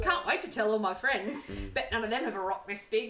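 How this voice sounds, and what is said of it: Spike impression, over-the-top British accent. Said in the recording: “when I do his accent ... Why did you choose a British accent? ... Not his British accent ... It's like fucking Eliza Doolittle”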